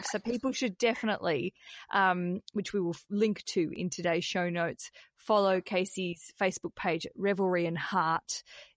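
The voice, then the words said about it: Australian accent. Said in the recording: “Terrible accent ... my Australian accent”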